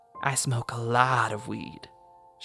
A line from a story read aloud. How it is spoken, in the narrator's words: whispered